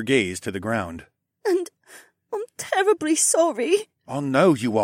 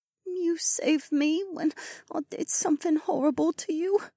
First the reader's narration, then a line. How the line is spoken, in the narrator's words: she murmured